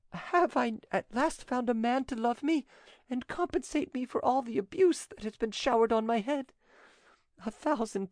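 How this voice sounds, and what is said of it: Broken, emotional voice. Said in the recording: “in a broken voice.”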